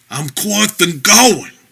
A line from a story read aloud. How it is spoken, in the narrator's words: Bog's partner groaned